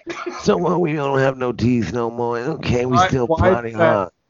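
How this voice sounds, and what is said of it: Put-on southern jazz musician accent. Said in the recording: “that accent turn into like a southern jazz musician guy”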